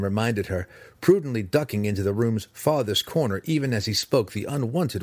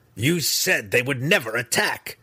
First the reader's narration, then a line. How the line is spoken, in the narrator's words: Breeza growled at her mother